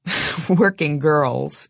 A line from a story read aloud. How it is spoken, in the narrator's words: he laughs